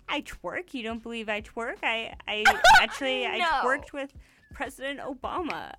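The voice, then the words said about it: Put-on Canadian accent. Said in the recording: “That's my Canadian Harper accent”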